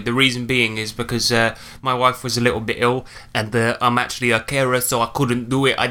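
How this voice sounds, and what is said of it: Put-on accent. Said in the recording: “I don't know why I'm talking in this accent.”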